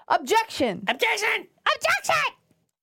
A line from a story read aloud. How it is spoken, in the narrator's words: He yelled